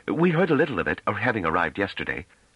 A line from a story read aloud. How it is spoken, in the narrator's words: Pellaret, who had grown uneasy at Trevise's annoyed tone, put in hastily